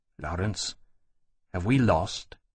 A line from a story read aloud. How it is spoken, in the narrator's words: he said after a moment, softly